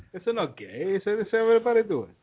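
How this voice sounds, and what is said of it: Convincing put-on Italian accent. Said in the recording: “Your Italian accent, I feel, is very on point.”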